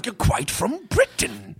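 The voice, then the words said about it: Terrible fake British accent. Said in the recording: “who's got the best British accent ... It's terrible.”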